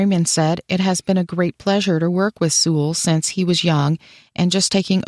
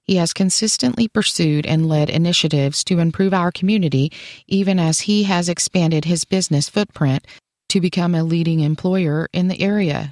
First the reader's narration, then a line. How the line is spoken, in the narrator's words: she said